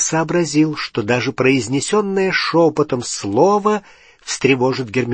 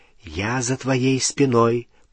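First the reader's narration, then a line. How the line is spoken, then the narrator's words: Whispered into ear. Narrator (Russian): прошептал он в ухо Гермионы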